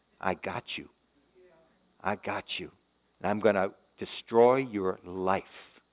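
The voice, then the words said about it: Whispered sinister voice. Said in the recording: “that demon is whispering ... That little subtle voice there.”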